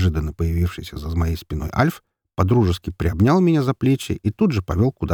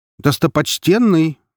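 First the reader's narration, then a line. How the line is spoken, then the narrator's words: Confused startled cry. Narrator (Russian): вскрикнул мужик, явно не понимая, что только что произошло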